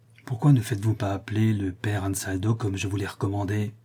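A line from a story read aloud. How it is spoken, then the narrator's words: Whispered by familiar voice. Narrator (French): lui dit tout bas une voix qu'il reconnut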